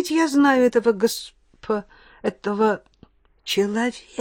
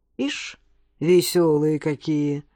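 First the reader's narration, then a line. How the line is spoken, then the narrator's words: Young man muttering nearby. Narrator (Russian): пробормотал какой-то молодой человек рядом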